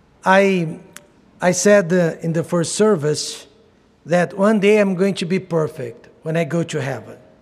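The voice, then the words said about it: Brazilian Portuguese accent in English. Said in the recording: “I'm going to speak English without an accent ... Brazil was colonized by Portugal.”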